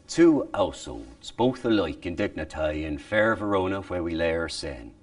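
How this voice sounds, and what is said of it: Shakespeare-era English accent reconstruction. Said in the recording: “English would have used, it is way different than modern British ... what it sounded like ... linguists who performed in the accent that would have been in the day”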